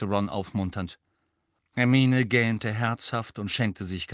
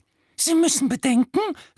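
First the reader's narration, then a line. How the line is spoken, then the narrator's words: High squeak. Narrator (German): quiekte der kleine Professor Flitwick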